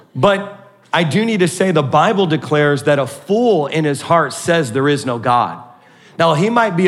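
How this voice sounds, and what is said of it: Usual voice. Nothing is said of it.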